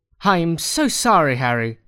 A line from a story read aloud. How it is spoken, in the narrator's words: he cried